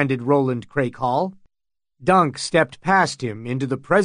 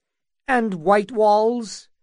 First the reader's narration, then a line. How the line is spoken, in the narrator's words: asked Butterwell with quavering voice